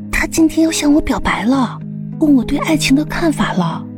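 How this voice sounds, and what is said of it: Speaking quietly, in a low voice. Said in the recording (Chinese): “小声说道”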